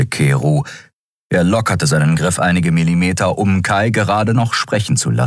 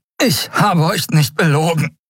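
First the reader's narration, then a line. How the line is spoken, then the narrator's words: Breathless gasping. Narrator (German): keuchte er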